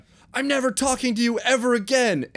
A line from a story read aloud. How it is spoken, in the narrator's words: Andy yelled at his mother